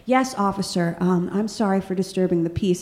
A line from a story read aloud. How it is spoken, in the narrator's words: very quietly and politely said